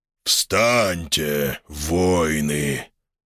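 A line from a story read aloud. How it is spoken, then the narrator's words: Deep majestic voice. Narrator (Russian): пробасил величественный голос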